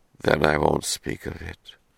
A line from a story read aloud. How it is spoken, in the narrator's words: she said, her voice hardly above a whisper